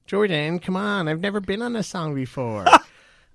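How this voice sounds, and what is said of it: Kylie Jenner impression. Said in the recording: “Is that your Kylie Jenner impression?”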